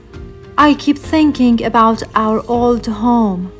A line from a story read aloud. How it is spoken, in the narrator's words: Sunny replied